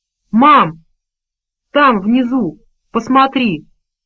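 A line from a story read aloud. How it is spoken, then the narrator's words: Boy shouting. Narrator (Russian): кричал мальчуган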